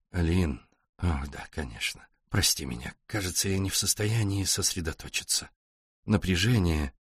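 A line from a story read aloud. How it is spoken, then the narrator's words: Distracted mumble. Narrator (Russian): Джереми рассеянно пробормотал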